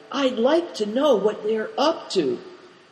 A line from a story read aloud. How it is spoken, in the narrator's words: whispered Big Tiger